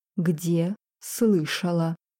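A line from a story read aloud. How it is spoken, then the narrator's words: Dragon, through gritted teeth. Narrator (Russian): процедил дракон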